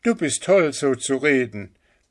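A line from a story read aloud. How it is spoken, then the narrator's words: Child shouting angrily. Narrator (German): rief das Sternenkind zornig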